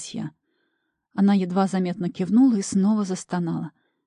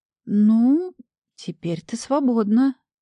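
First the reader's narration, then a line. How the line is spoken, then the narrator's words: Uncertain, hesitant start. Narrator (Russian): неуверенно начала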